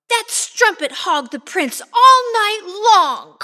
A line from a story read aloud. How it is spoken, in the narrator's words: cried Griselda